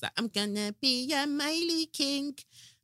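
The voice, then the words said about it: Imitates a child's singing accent. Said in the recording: “That's his little accent.”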